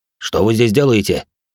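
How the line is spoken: Gloomy angry warrior question. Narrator (Russian): угрюмо спросил грозный воин, зло сверкая глазами

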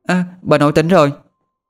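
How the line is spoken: Child exclaiming. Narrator (Vietnamese): Con bé Thư, nó kêu lên

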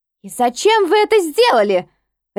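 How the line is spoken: Barking sharply. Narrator (Russian): рявкнула

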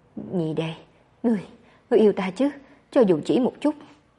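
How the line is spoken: Weak, breathless, broken. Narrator (Vietnamese): Nhiếp Cảnh không một chút khí lực, thở hổn hển đứt quãng

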